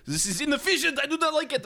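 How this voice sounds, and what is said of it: German-sounding accent as Tesla. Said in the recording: “Why do you sound German? You're Serbian. Because I do not know how to do Serbian accent!”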